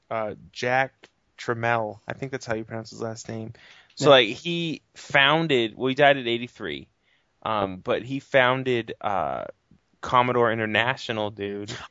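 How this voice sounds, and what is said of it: Boston accent. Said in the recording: “that's ... from Boston. You can tell by his accent.”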